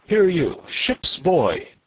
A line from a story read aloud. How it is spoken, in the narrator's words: cried